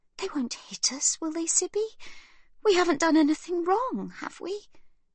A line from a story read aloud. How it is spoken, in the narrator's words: Livy whispers